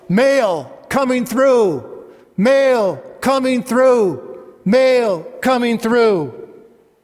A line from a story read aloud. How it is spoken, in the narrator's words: he would yell